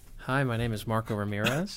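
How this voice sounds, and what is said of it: Smooth put-on radio announcer voice. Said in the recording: “radio voice? ... That's silky smooth.”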